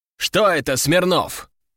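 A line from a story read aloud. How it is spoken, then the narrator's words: Menacing bark. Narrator (Russian): грозно рявкнул Клюев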